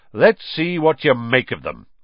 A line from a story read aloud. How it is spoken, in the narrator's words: Lockhart said loudly